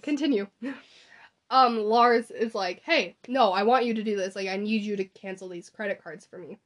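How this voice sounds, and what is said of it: Strained, failing voice. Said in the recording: “my voice is, like, giving out, and I am struggling ... Pushing that voice.”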